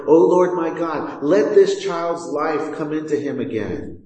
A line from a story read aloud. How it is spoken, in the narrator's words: cried to the Lord